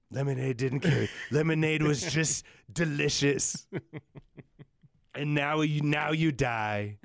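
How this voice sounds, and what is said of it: Imitates another person's voice. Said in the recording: “can't do the Trump voice ... That was pretty good”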